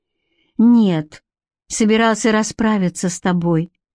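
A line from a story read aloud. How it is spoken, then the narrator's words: Calm explanation. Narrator (Russian): спокойно объяснила Бренна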